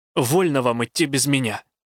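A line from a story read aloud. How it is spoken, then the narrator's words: Snapped. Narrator (Russian): огрызнулась я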